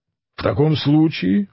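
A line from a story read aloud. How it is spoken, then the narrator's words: Angry exclamation. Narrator (Russian): воскликнул Дон Кихот, уже вспыхнувший гневом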